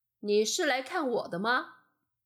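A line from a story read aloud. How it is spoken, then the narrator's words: Plain, old man. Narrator (Chinese): 老人回答说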